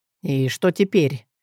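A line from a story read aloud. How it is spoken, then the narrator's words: Quiet question, not waking children. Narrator (Russian): тихо спросил Анрей, чтобы не разбудить детей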